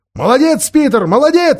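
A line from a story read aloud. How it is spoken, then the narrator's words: Shouting. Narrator (Russian): закричал Эдмунд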